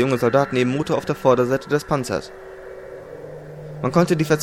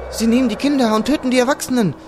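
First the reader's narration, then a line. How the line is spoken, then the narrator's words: Excited shouting. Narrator (German): schrie sie aufgeregt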